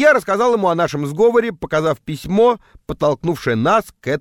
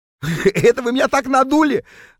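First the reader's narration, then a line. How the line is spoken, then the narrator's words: Guffawing realization. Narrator (Russian): захохотал Норберт, когда наконец понял, в чем дело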